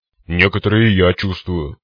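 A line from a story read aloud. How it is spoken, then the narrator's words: Gruff grumble. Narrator (Russian): проворчал циклоп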